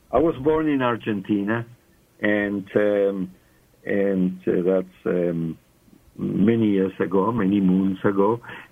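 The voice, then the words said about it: Foreign accent, not South African. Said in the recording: “your accent, which we love ... my English is South African, but my accent is not”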